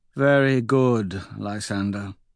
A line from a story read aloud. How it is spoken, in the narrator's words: she says sadly